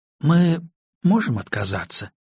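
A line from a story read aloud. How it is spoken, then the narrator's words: Unsure question. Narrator (Russian): спросила она неуверенно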